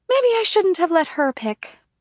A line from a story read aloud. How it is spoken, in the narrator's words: Manami sighs